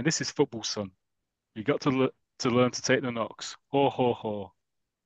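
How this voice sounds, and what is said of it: Imitates another person's voice. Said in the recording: “That's my impression of Morgan Freeman.”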